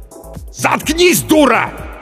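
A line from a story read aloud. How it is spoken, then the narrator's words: Uncontrolled yelling. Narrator (Russian): заорал он, даже не пытаясь взять себя в руки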